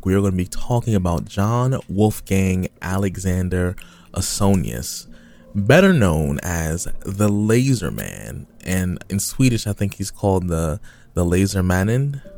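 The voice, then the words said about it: Heavy, thick American accent. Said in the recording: “You just said it with a heavy, thick American accent right there.”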